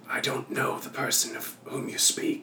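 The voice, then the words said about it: Raspy character voice. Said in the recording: “I haven't spoken to someone in quite some time. That's why I'm raspy.”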